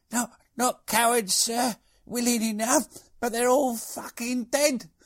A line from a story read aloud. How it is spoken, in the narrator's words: His platoon sergeant, groaning with a broken shoulder, gasped